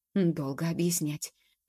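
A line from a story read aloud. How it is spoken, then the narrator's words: Quiet whisper. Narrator (Russian): точно так же тихо прошептал Мимулус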